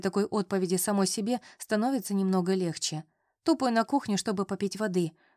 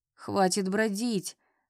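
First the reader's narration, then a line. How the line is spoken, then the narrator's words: Sleepy grumbling. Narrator (Russian): сонно ворчит Саша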